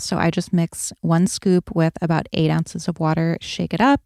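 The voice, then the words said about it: Sleepy-sounding voice. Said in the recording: “I sound kind of sleepy right now, because I haven't had any caffeine”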